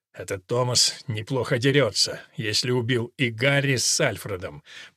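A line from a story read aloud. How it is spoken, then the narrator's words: Grumbling warrior. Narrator (Russian): проворчал воин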